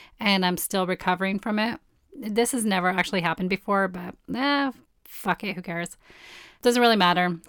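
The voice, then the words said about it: Hoarse, strained voice. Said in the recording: “my voice is totally off... the cayenne actually burnt out my throat completely, where I completely lost my voice yesterday”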